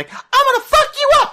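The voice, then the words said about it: High-pitched character voice. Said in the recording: “it's gonna be really high pitched”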